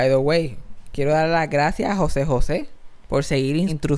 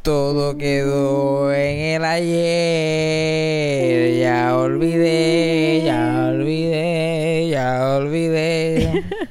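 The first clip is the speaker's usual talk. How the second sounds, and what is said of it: Imitates a singer's voice. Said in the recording (Spanish): “Yo sueno como José José, como la voz de cuando se murió ... tú suenas como, como José José.”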